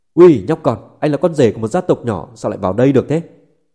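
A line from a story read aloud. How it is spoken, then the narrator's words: Shout. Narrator (Vietnamese): Viên Thiệu quát lên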